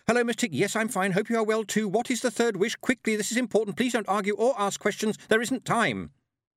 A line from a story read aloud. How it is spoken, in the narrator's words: Tiffany shouted